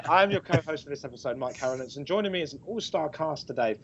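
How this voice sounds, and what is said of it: Damaged, sore-throat voice. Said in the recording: “my voice is pretty much screwed. I have a sore throat”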